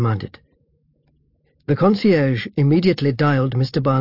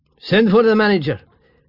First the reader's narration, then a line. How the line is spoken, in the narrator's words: barked the minister